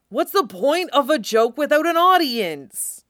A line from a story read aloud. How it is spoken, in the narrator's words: Tim shouted